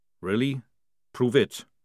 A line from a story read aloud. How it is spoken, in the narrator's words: said Jackram calmly